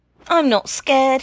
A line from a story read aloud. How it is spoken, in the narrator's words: he shouted